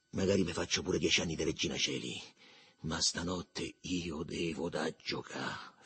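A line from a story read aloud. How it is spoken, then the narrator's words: Low voice. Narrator (Italian): fece a voce bassa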